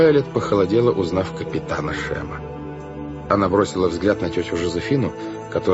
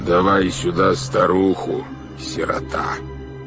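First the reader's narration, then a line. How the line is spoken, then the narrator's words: Plain. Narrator (Russian): сказал голос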